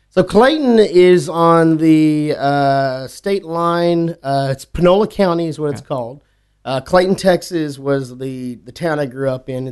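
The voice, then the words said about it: Strong Texas accent. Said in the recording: “Your accent just totally ramped up. Like as soon as you start talking ... About it. ... it usually comes back less because I can hear the accent”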